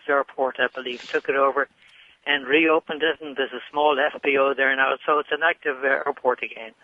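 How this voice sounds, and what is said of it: Irish accent. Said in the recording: “what is that accent? Where are you from? ... I'm originally from Dublin, Ireland ... I like that accent.”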